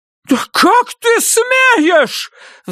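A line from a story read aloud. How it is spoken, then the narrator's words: Shrill squeal. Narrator (Russian): взвизгнула она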